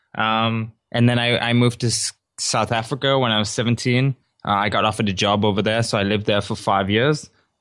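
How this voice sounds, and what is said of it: Mixed South African American British accent. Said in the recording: “people are probably detecting an accent ... most people tell me I sound like South African American or something like that. But originally I am British. I'm from Newcastle.”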